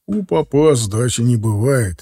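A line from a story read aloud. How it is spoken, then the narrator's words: Laughing father. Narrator (Russian): засмеялся отец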